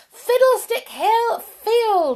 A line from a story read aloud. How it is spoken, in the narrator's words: he shouted